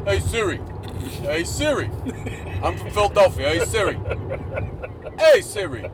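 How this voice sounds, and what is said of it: Imitates another person's voice. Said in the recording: “his imitation of me. This is what he thinks I sound like ... Spot on imitation.”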